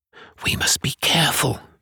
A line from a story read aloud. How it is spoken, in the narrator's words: he whispered